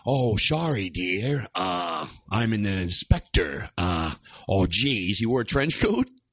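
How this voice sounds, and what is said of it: Imitates another person's voice. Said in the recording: “that was a Columbo impression? ... Not everybody can be an impersonator.”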